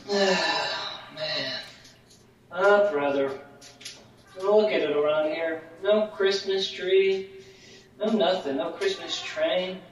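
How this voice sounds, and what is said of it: Sad, downcast voice. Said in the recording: “You sound a little sad.”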